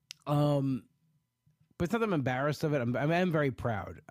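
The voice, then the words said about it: Congested, stuffy-nosed voice. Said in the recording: “I keep coughing, but my allergies are really killing me ... It makes me have a stuffy nose. But it makes me have a good radio voice.”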